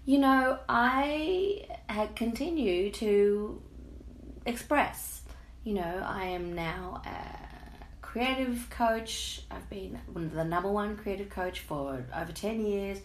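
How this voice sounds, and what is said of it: Hoarse, froggy throat. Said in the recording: “I've got a frog in my throat,”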